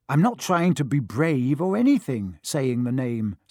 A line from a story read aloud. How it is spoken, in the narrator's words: said Harry